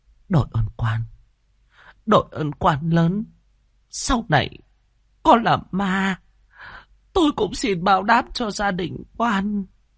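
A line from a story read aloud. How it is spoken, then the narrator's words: Trembling old woman. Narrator (Vietnamese): Bà run run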